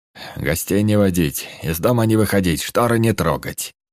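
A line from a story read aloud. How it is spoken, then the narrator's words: Curt harsh command. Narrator (Russian): Сквозь зубы отрывисто и жестко приказал гном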